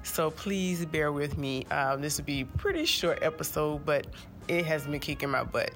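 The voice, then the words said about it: Nasal, congested voice. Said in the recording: “I sound a little nasally,... it's because I'm getting a real cold.”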